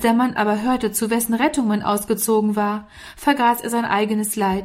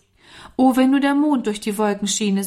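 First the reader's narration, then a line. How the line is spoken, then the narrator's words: Sighing. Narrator (German): seufzte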